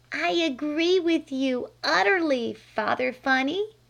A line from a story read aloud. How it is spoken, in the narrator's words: said Flame